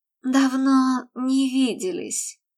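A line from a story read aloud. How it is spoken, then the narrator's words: Low, slightly husky whisper. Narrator (Russian): низким, чуть хрипловатым голосом шепнула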